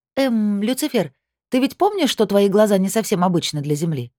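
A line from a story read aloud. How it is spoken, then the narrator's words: Innocent tone. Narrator (Russian): невинным тоном поинтересовалась я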